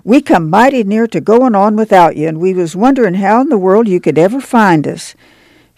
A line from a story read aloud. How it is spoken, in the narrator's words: she cried